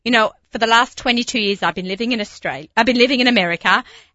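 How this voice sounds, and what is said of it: Australian accent. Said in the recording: “people always talk to me about my accent ... throw a shrimp on the barbie”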